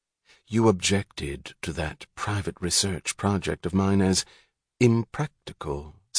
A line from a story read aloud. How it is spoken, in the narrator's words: said Ferris softly